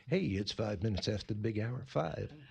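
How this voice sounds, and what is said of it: Put-on sexy radio announcer voice. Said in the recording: “sexy voice, don't I? Listen to that. ... you have the radio voice.”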